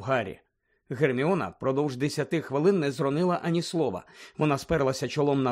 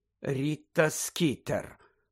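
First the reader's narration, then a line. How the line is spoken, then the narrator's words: Hesitant mutter. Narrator (Ukrainian): пробурмотіла вона врешті-решт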